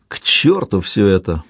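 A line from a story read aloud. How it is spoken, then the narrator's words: Gloomy grumble. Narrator (Russian): мрачно проворчал Блер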